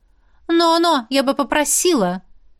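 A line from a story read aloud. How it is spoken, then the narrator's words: Loud. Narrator (Russian): сказала громко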